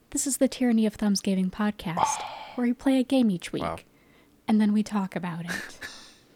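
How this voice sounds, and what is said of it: Smooth public-radio announcer voice. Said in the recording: “in my beautiful NPR voice”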